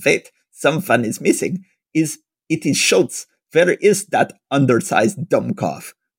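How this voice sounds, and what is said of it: Put-on German accent. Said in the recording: “I keep having to do my German accents here.”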